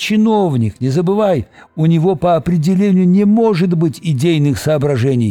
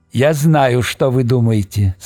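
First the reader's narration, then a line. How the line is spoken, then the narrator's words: Plain. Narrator (Russian): сказал он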